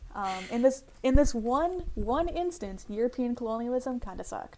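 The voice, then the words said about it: Sarcastic tone. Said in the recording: “that was sarcasm ... That was sarcasm ... that was a joke”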